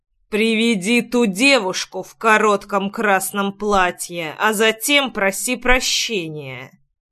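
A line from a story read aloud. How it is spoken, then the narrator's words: Menacing through gritted teeth. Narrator (Russian): Процедил я таким тоном, что человек побледнел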